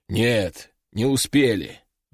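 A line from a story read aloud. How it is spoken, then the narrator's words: Sighing. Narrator (Russian): вздохнул генерал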